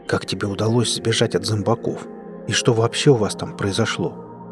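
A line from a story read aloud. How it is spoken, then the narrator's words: Low-voiced question. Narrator (Russian): спросил вполголоса Денис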